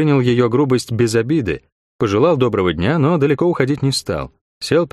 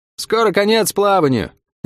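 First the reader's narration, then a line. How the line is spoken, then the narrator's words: Cheerful shout. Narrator (Russian): весело прокричала паромщица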